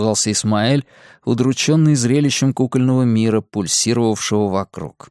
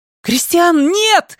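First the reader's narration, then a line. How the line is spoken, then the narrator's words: Scream. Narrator (Russian): закричала Ирен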